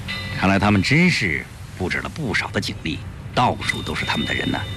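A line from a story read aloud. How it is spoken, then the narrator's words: Low voice. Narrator (Chinese): 鲁鱼低声说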